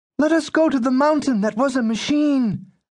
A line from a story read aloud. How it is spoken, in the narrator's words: Klein pleaded